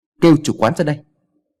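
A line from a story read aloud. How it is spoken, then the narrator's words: Loud shout. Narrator (Vietnamese): anh ta quát lớn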